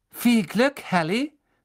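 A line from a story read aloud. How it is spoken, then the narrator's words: Called out. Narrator (German): rief Cho Chang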